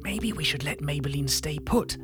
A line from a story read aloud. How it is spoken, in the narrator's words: I whispered to Magenta